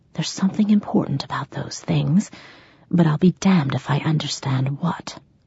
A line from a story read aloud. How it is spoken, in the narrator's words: whispered